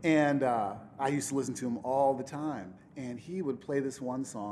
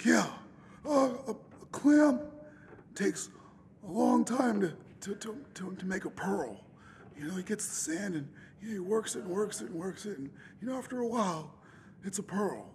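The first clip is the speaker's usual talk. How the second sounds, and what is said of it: Imitates another person's voice. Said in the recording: “I'll do my best Duke Spaulding imitation.”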